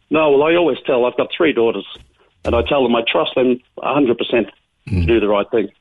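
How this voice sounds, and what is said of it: Australian Melbourne accent. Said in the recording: “your accent tells me ... Melbourne is where you come from originally”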